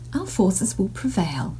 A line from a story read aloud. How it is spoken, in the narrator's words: she persisted calmly